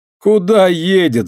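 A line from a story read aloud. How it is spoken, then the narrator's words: Loud laughter. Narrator (Russian): захохотал Вася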